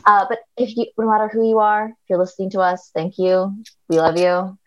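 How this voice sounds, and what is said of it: Sultry late-night public radio voice. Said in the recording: “talking like a sultry Garrison Keillor into the mic late at night ... This is my hot NPR voice.”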